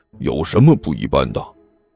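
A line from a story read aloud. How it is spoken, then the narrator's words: Hushed voice. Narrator (Chinese): 甘球在一边压低声音说道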